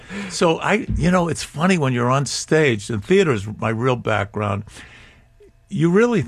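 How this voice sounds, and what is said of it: Usual voice. Nothing is said of it.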